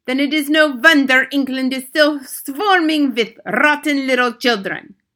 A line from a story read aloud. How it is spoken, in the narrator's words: thundered the Grand High Witch